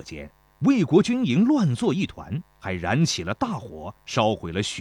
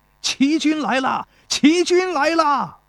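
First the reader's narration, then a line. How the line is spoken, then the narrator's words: Soldiers shouting loudly. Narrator (Chinese): 田国的士兵高声喊道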